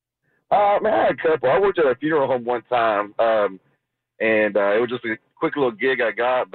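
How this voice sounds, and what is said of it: Speaks with a pleasant accent. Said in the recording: “he's got that sweet accent”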